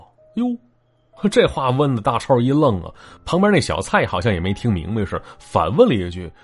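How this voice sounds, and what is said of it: Usual voice. Nothing is said of it.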